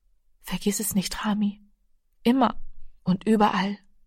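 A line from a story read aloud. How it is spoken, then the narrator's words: Soft. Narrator (German): sagte leise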